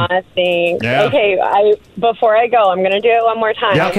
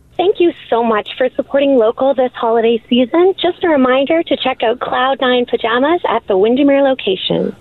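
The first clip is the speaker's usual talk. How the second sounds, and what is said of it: Cheerful, upbeat customer-service phone voice. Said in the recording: “you sounding that happy ... You've got a great phone voice. ... Both your regular voice and your work voice.”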